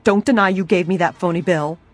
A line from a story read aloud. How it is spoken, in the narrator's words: she almost screamed